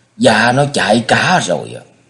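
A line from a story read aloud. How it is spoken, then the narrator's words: Angry servant replying. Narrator (Vietnamese): Một tên đầy tớ giọng tức giận đáp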